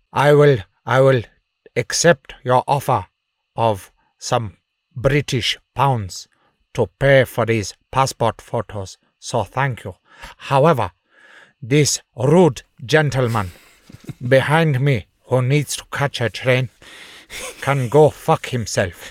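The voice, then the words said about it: Imitates another person's voice. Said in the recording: “That was so good. How did you learn to do such a good Nelson Mandela impersonation?”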